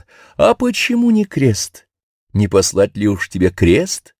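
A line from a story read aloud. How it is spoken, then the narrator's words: Laughing. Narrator (Russian): И снова Бог засмеялся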